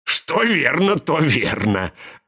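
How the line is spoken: Laughing. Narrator (Russian): рассмеялся Зет

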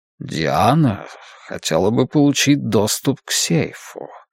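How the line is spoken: Ingratiating purring voice. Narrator (Russian): сказал он вкрадчивым, мурлыкающим голоском

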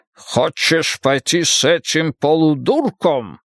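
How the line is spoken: Growl. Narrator (Russian): прорычал он

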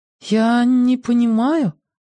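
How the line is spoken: Uncertain tone. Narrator (Russian): неуверенным тоном произнесла она

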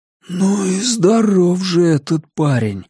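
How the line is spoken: Breathless exclamation. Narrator (Russian): выдохнул кто-то

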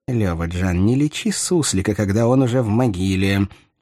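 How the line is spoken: Slightly irritated mutter. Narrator (Russian): чуть раздраженно буркнул бывший визирь

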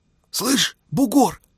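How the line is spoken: Whispering. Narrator (Russian): Николай заговорил шепотом

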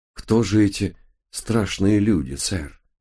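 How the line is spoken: Sighing. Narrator (Russian): вздохнул я

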